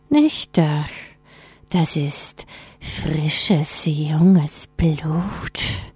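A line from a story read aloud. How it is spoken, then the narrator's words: Icy voice hissing with relish. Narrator (German): fauchte die Eisstimme genüsslich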